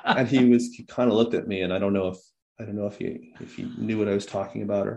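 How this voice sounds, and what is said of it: American accent. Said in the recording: “my weird American accent”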